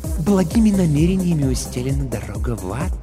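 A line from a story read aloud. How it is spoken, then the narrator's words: Insinuating smooth remark. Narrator (Russian): вкрадчиво заметил Пифон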